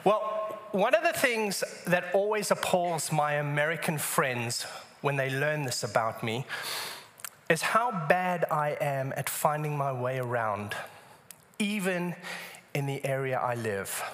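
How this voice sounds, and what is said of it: West Texas accent. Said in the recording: “accent is from ... it's from West Texas ... West Texas accent”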